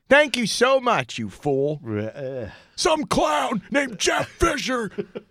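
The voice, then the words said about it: Imitates another person's voice. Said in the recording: “That's my Kelsey impression.”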